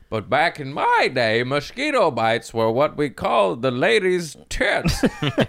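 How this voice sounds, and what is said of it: Put-on old man voice. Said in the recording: “That's such a good old man voice. ... It was an old man riff.”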